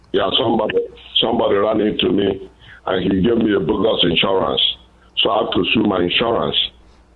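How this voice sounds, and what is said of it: Nigerian English accent. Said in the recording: “I love that accent ... I'm from Nigeria, West Africa ... Sometimes I can't tag the accents from which African country. But, okay, you're from Nigeria”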